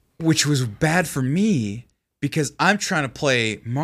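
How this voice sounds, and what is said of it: Usual voice. Nothing is said of it.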